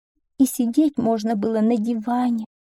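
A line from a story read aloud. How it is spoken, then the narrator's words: Sighing woman. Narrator (Russian): вздохнула одна женщина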